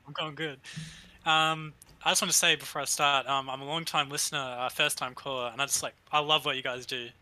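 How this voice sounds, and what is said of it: Australian accent. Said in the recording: “Australian accent ... you can probably hear the accent.”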